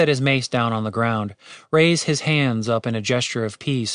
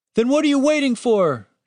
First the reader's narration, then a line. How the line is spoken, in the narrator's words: shouted the wounded guard